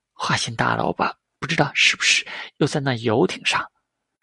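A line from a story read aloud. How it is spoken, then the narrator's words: Contemptuous mutter. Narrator (Chinese): 邱淑贞有点呆，然后便鄙视着嘟囔着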